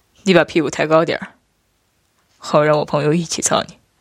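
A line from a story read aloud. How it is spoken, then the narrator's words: Laughing. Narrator (Chinese): 父君笑道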